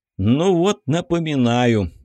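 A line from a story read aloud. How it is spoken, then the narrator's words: Tired, smiling. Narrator (Russian): устало улыбнулся Егор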